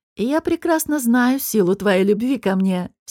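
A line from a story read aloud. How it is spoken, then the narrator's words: Laughing speech. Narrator (Russian): все так же смеясь сказал Раф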